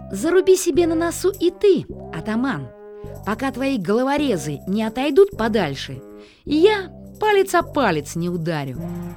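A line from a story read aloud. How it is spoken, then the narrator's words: Loud. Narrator (Russian): громко сказал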